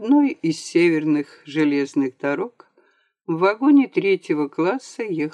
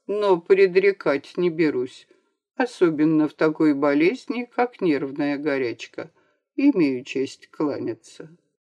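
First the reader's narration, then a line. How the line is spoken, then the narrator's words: Unfriendly dry reply. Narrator (Russian): ответил недружелюбно и сухо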